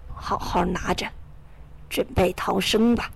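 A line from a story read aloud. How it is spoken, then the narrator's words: Old man whispering. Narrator (Chinese): 老约翰凑到我跟前，小声的对我说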